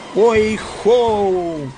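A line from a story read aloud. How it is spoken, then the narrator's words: Joint exclamation. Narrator (Russian): воскликнули Фред и Элли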